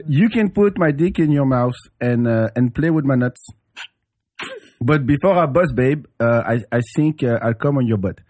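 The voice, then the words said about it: Put-on French accent. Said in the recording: “I have to read it with a French accent ... It sounds Middle Eastern ... No, it's French ... It's French”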